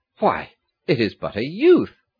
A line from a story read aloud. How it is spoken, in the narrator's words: he exclaimed